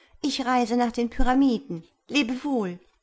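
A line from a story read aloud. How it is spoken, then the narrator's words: Calling out. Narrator (German): rief die Schwalbe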